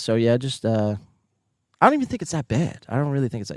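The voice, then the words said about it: US Northeastern accent. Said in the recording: “I don't say golf. I say golf. ... that's just my Northeastern accent”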